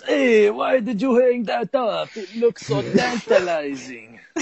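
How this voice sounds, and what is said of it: Put-on Italian accent. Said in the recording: “Italian because that's the accent they did in the Star Wars special”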